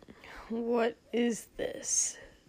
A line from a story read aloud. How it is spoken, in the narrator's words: Shoto muttered